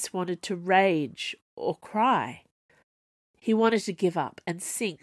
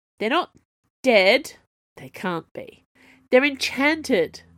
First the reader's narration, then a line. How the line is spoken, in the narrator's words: Chase called up irritably